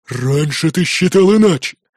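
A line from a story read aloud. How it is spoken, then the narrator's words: Skeptical snort. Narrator (Russian): хмыкнул берсерк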